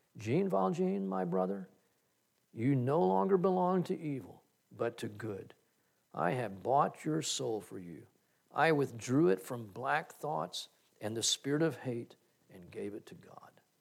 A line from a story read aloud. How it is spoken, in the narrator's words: the bishop continued solemnly